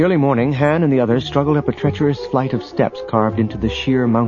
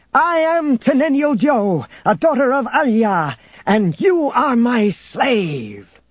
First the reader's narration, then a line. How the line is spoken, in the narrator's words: She shouted triumphantly